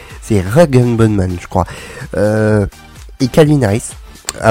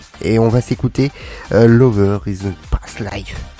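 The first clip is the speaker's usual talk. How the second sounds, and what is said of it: Poor attempt at English accent. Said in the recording (French): “avec mon excellent accent anglais, très malade, mais j'ai essayé”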